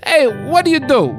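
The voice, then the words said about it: Imitated New Jersey accent. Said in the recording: “I don't know if that's a Jersey accent. Maybe that's an American, that's just a New York.”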